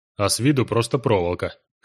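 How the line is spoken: Skeptical grunt. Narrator (Russian): хмыкнул южанин

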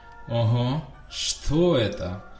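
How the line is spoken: Mocking drawl. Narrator (Russian): насмешливо протянул Драко

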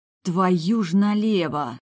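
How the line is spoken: Hoarse wheeze. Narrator (Russian): Просипела я

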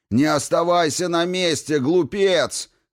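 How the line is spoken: Urgent shout. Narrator (Russian): закричал Хакатри брату

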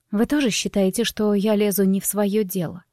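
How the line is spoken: Quiet, strained. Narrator (Russian): Тихо, с трудом выдавила я

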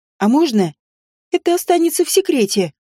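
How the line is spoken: Doubtful squeak. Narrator (Russian): пискнула, особо не веря, что они пошли бы навстречу

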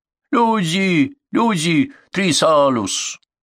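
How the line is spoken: Moaning, spitting blood. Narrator (Russian): Мальчик стоная и выплевывая кровь вперемешку с передними зубами

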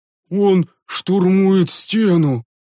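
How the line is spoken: Groaning monk. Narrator (Russian): простонал один из монахов

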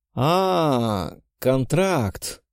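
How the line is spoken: Drawn-out drawl. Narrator (Russian): протянул я

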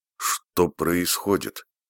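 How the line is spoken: Quiet question. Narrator (Russian): Тихо спросила

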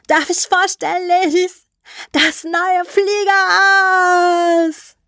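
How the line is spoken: Shouting into radio. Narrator (German): schrie Mary ins Funkgerät

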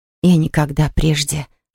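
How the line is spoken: Whispered. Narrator (Russian): шепнула она Полли

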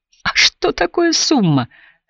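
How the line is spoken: Uncontrollable laughter. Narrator (Russian): снова раздражался хохотом, который накатывал на него неудержимой волной

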